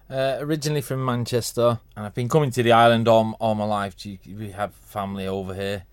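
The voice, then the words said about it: Non-Manx English regional accent. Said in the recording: “People might detect from the accent you're not from the Isle of Man”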